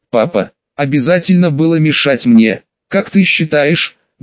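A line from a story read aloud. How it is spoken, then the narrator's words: Dry, pointedly reproachful. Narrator (Russian): Голос отца звучал сухо и подчеркнуто укоризненно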